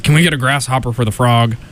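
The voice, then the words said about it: Imitates Rolf the dog's voice. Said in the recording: “That's a great Rolf the dog impression.”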